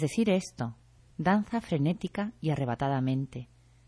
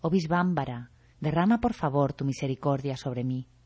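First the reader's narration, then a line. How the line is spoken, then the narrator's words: Exclaiming. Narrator (Spanish): Mahadev, el de la tez clara, exclama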